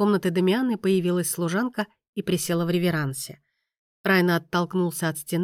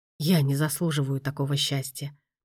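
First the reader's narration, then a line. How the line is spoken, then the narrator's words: Whisper. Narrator (Russian): прошептал он наконец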